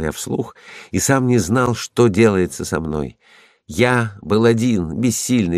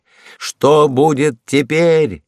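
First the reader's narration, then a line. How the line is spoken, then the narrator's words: Loud desperate shout. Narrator (Russian): крикнул я громко, чтобы услышать свой собственный голос и не сойти с ума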